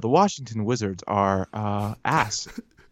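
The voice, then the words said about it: Mock NPR radio announcer voice. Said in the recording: “put on my NPR voice for this ... This is the voice you use at your accounting job?”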